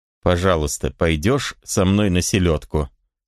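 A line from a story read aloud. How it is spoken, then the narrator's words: Plain. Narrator (Russian): сказал он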